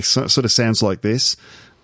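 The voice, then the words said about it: Attempted Australian accent, sounds New Zealand. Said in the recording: “if I try to do an Australian accent, I don't know if it's really accurate ... that sounds a bit New Zealand ... that sounds like a New Zealander”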